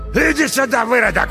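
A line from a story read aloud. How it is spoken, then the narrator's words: Shouting. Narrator (Russian): лысый закричал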